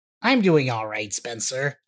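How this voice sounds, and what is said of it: Imitates another person's voice. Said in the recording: “my Michael impression”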